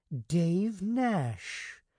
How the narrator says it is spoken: the girl exclaimed softly, pleased

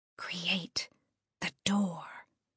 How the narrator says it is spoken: she whispered

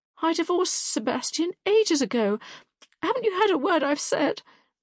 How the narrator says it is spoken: cried, dissolving into tears once more

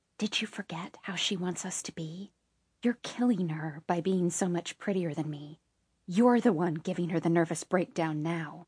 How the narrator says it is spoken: She leaned forward to whisper

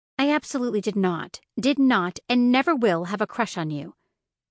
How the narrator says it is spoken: she said firmly, still grimacing

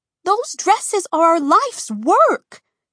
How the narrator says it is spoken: Cece cried

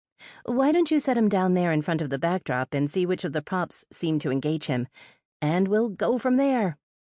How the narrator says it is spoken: said as brightly as I possibly could

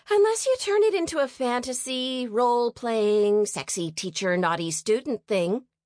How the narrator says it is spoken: Abby piped up

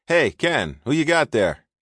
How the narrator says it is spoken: A young blonde-haired officer called out

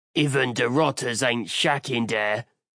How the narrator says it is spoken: the Orc snarled

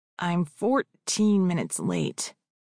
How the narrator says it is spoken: Otis grumbled

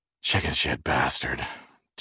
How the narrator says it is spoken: Jerry said, panting with pain

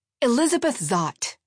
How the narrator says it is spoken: she barked back

